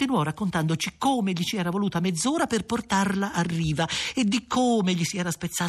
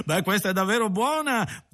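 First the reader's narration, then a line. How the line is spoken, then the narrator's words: Man laughing heartily. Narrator (Italian): disse l'onest'uomo ridendo a crepapelle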